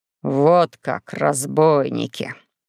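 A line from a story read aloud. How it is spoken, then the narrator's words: Indignant man. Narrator (Russian): говорил красный от возмущения дядя Захар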